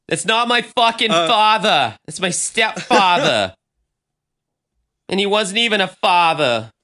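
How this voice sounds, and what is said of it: Weak attempt at Boston accent. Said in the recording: “I can't do a good Boston accent. I'm doing my best.”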